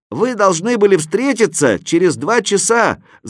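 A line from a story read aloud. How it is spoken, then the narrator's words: Shouting from above. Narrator (Russian): закричал я сверху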